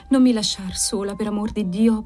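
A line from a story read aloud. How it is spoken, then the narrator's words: Childlike stammer. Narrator (Italian): balbettava quasi infantilmente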